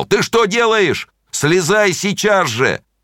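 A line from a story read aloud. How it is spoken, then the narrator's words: Loud frightened shout. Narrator (Russian): он испугался, и он громко закричал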